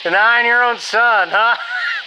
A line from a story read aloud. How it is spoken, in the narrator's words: the man laughed